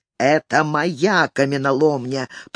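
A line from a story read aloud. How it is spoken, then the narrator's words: Hiss. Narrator (Russian): прошипел он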